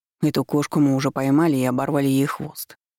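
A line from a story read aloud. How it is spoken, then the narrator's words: Cold declaration. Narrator (Russian): холодно заявил Семён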